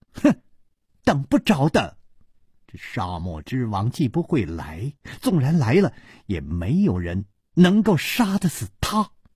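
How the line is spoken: Laughing. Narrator (Chinese): 李红秀笑着说

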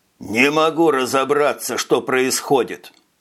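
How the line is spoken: Mumbling. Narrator (Russian): бормотал Чече

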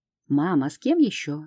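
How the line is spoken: Irritated snort. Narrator (Russian): Раздраженно хмыкаю

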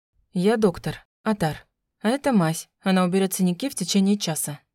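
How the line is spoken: Calm. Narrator (Russian): спокойно ответил мужчина

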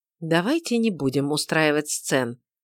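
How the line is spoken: Conciliatory. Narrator (Russian): сказал он примирительным тоном

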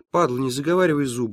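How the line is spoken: Fairly calm. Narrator (Russian): довольно спокойно сказал Чингис

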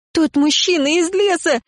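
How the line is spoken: Screamed. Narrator (Russian): закричала я

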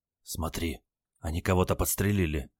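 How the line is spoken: Anxious whisper, grandson. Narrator (Russian): тревожно зашептал внук

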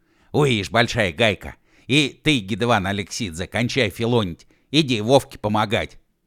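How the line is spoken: Sharp shout. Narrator (Russian): прикрикнул Уэф на Гидевана

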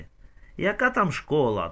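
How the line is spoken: Grumbled. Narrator (Ukrainian): буркнув

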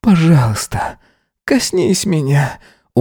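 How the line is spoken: Hoarse pleading. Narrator (Russian): умолял он, охрипнув от стонов

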